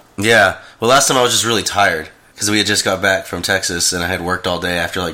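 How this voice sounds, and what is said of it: Sick, deep NPR-like voice. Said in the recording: “I have like my NPR voice again. ... Yeah, you kind of do. Except right. For this time, it's not intentional. ... this time I'm just sick.”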